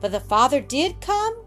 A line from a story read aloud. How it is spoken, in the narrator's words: cried Roxy eagerly